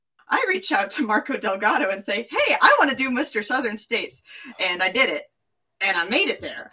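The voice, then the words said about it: Southern Tennessee accent. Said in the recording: “I just went back into my like Tennessee accent”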